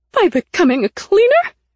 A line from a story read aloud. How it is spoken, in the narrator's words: She cried